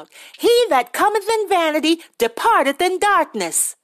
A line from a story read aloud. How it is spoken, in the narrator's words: a shrill-voiced woman called out